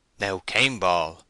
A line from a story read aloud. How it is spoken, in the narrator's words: said Oak sternly